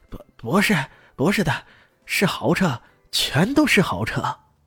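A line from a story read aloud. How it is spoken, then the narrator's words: Breathless. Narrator (Chinese): 那人喘着气说道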